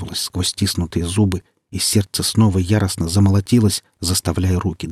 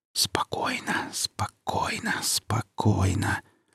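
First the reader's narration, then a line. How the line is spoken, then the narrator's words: Whispering to himself. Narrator (Russian): зашептал Ромка сам себе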